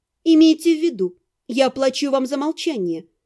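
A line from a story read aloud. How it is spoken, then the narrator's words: Stern reminder. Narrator (Russian): строго напомнила я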